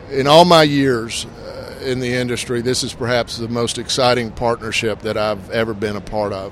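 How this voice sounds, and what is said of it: Slightly hoarse voice. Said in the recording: “if I'm a little hoarse, it's because I talked about that a lot yesterday”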